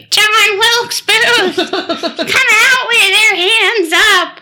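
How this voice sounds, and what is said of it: Squeaky high-pitched voice. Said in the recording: “a really squeaky voice”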